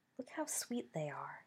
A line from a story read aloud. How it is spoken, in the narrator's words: she murmured